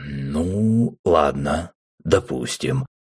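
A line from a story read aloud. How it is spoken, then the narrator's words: Detached drawl. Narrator (Russian): отстраненно протянул Рэм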